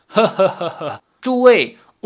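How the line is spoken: Laughing voice. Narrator (Chinese): 林天南笑道

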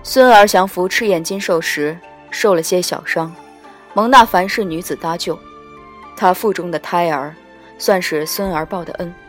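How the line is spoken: Flat, indifferent. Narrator (Chinese): 淡淡道

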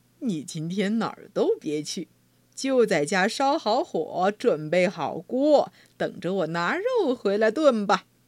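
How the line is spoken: Cheerful, smiling. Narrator (Chinese): 农夫笑眯眯的对妻子说

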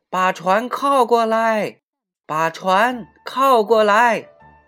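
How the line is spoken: Shouting together. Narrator (Chinese): 他们一起叫起来

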